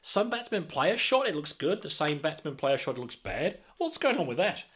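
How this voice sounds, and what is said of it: Terrible impression of a co-presenter. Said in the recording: “That's a terrible impression, Mel. I apologise.”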